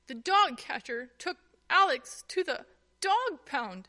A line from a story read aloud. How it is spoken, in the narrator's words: Tuffy explained between sobs